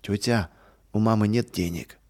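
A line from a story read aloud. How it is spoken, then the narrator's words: Sad child's voice. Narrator (Russian): печально сказал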